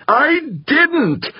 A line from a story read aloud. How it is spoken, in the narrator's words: howled back, his face reddening